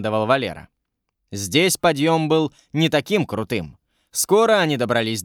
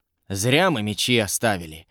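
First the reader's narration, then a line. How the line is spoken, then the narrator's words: Quiet grumbling soldier. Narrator (Russian): тихо проворчал один из солдат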